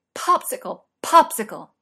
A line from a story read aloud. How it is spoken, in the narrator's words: yelled